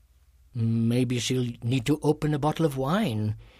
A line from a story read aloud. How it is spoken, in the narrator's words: he mumbled